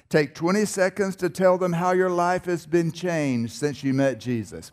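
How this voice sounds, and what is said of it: North Carolina Southern accent. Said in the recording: “I was born in North Carolina. Maybe you can tell by my accent.”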